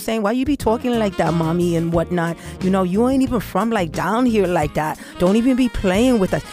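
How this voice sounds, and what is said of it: Spanish Harlem New York accent. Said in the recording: “I can even sound like, you know, some of my friends from Spanish Harlem”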